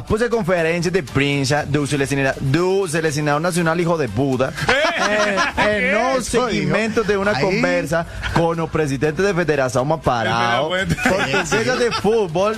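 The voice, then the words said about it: Mock Portuguese accent. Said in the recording (Spanish): “Voy a leer en el idioma de Cristiano Ronaldo. ... en el acento”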